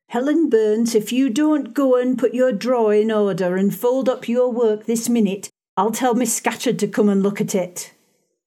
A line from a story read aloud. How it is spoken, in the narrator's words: a great rough girl, exclaiming in a strong Cumberland accent